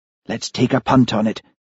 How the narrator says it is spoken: whispered Charlie

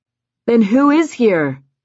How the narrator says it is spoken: Levi shouted, smiling

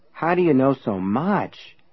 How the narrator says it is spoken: Everett asked in a dazed voice

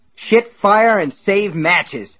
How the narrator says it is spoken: Ace cried

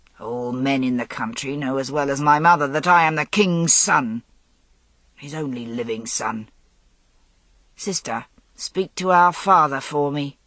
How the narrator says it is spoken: Malia Grant said harshly

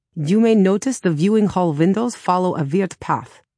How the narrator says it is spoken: Gunter said

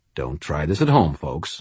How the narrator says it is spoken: muttered

